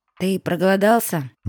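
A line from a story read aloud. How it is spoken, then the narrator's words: Uncertain question. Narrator (Russian): неуверенно спросила она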